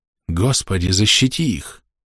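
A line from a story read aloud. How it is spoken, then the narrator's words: Whisper. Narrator (Russian): прошептал он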